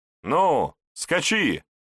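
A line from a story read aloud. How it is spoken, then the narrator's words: Shout. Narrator (Russian): крикнул Егор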